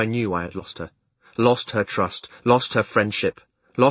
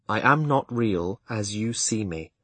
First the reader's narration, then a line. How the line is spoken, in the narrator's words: I replied slowly